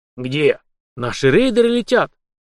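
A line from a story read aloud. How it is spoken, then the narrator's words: Excited exclamation. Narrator (Russian): возбужденно воскликнул, сумевший считать эмоции командира Ким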